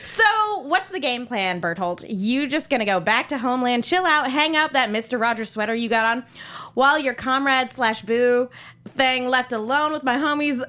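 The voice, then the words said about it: Attempted Valley Girl accent. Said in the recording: “I've got enough Valley Girl in me that I might be able to do something ... I can't keep the Valley Girl accent ... I can't ... Do it justice”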